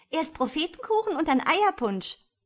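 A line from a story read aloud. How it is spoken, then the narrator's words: Little girl shouting. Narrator (German): schrie das kleine Gustchen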